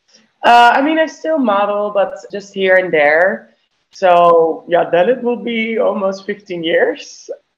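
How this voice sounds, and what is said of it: Dutch accent. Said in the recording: “I can hear the accent. It's so beautiful.”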